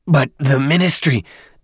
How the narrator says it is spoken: Dadaab stammered

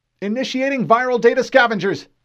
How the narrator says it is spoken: Lieutenant Streeter called out

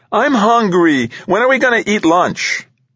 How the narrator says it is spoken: piped from the back seat

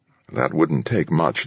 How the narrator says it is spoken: muttered

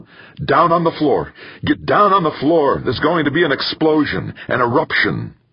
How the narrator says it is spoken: Mance yelled at them

